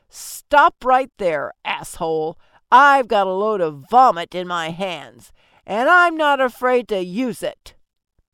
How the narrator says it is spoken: snarled

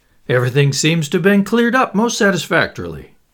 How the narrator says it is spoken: said Lord Caddaham cheerfully

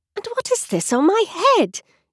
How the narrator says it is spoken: She exclaimed in a tone of dismay

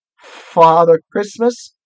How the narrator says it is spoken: stammered the fox

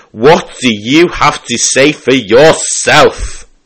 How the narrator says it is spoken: bellowed

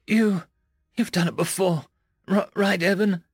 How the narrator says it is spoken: I whimpered, terrified

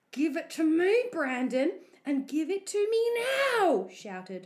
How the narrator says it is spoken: shouted

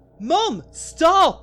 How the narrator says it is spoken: I screamed at her until my throat went hoarse

